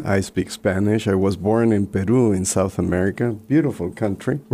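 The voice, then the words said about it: Spanish accent. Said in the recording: “the accent that you'll hear throughout is Spanish”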